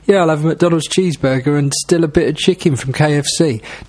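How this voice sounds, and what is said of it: Slightly patronising mocking voice. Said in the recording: “say it in that slightly patronising voice”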